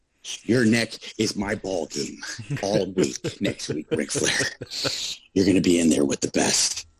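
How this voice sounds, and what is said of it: Imitates another person's voice. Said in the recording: “good Harley Race impression ... I don't think I've ever heard anybody do a Harley Race impression, but that is a fantastic one”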